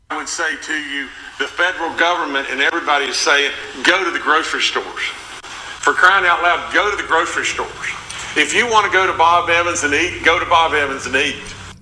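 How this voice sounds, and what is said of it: Southern US accent. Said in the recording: “I'm not making fun of his accent ... I live in the South ... Southern accent”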